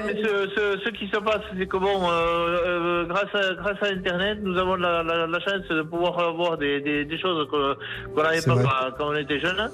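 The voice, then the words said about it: Southern French accent, Toulouse. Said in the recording (French): “j'adore votre accent. Ça doit venir vers de Toulouse, hein, votre accent”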